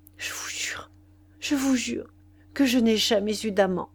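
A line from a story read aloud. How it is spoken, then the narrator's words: Broken whisper in ear. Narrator (French): elle lui murmura à l'oreille, d'une voix brisée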